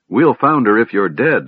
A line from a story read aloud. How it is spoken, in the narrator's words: Sturm said